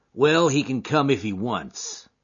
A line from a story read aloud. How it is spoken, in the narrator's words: he said in a surly voice